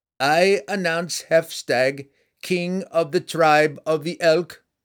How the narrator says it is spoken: the herald cried out in a clear voice

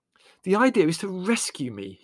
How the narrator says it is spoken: he pointed out, panting

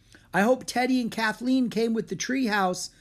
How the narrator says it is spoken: shouted Jack

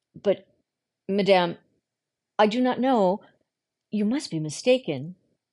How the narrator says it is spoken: She stammered

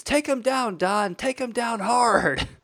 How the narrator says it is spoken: the wife screams

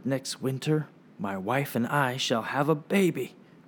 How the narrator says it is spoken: Yong-soo smiled at his brother and whispered

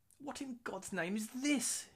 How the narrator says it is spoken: moans

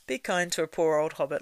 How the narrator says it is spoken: laughed Frodo

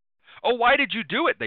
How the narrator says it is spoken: they shouted

